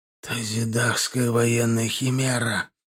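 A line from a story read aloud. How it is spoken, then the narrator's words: Whisper. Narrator (Russian): прошептал Урский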